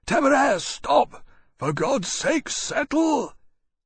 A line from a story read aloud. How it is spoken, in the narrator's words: In alarm, Lawrence called out to him hoarsely